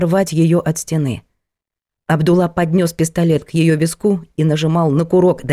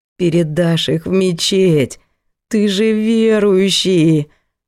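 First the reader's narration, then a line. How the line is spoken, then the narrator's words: Moaning. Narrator (Russian): Стонала она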